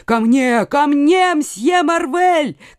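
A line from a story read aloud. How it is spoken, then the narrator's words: Shouting. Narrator (Russian): кричал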